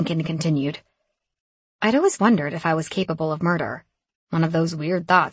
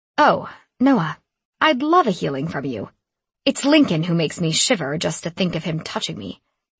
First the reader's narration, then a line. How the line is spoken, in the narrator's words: I snapped back